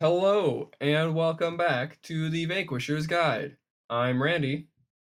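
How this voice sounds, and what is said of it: Robotic-sounding voice. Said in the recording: “You sound very robotic”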